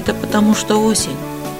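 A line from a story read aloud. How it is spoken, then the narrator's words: Sighing little bear. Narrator (Russian): вздохнул медвежонок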